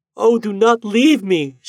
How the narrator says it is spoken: she cried

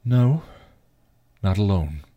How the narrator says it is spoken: the man sighed

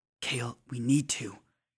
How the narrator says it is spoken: whispers

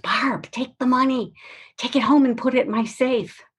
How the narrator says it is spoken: she excitedly whispers

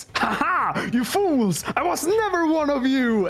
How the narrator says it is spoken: He screams

